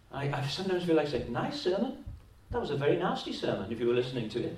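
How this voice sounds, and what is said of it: Welsh accent. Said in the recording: “I love your Welsh accent.”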